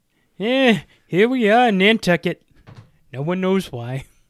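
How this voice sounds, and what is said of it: Imitates another person's voice. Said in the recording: “That's my Ratzenberger impression.”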